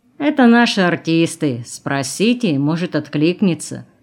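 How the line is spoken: Mocking reply. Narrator (Russian): ответил насмешливо тот же голос

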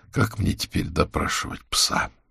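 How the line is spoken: Sighing. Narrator (Russian): вздохнул колдун

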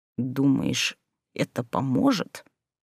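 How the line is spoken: Through clenched teeth. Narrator (Russian): процедил сквозь зубы Люций

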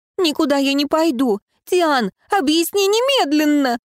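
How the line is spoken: Shriek. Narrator (Russian): взвизгнула Альма

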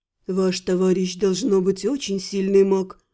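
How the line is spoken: Respectful whisper. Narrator (Russian): уважительным шепотом поделился с Элькой впечатлением ... Атриэль

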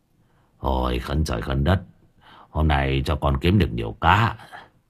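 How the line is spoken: Old man muttering. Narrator (Vietnamese): lão Quyền lẩm bẩm

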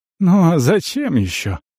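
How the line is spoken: Sighing. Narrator (Russian): Шенк вздохнул

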